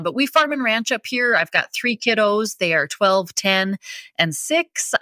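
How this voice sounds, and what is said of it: Heavy North Dakota accent. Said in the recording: “I am from North Dakota ... heavy accent that people always like to comment on”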